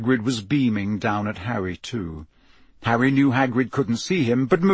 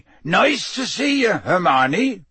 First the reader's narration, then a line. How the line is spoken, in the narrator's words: Hagrid said loudly